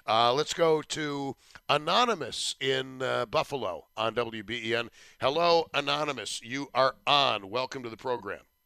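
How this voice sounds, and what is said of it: Scratchy, hoarse voice. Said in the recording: “my voice is a little bit scratchy ... the summer cold has decided to settle in my larynx ... it's just the voice”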